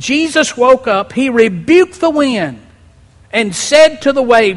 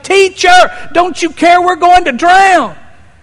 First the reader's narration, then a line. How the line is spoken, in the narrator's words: The disciples shouting